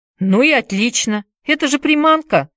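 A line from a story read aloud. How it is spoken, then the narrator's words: Snapping retort. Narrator (Russian): огрызнулся Уилл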